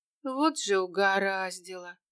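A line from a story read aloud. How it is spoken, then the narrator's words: Moan. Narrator (Russian): Простонала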